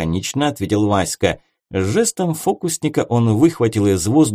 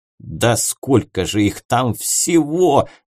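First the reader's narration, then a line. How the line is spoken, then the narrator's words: Howled. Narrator (Russian): взвыл волшебник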